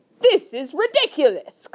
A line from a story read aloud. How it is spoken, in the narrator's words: cried the air marshal